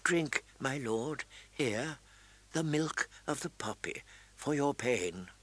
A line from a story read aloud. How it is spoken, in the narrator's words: whispering